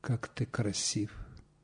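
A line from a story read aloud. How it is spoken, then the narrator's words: Whispering. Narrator (Russian): шептали звезды ночью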